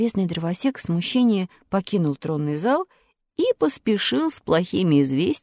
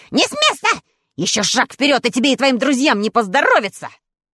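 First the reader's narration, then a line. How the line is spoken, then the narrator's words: Angry shriek. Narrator (Russian): Он злобно провизжал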